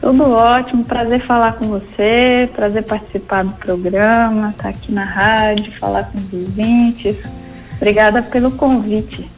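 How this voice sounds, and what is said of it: Pleasant mixed Minas Gerais accent. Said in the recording (Portuguese): “sotaque gostoso de ouvir ... Agora tá, tá meio misturado ... Mas eu vim de ... Minas Gerais”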